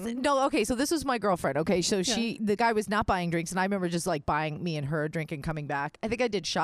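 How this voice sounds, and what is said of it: Usual voice. Nothing is said of it.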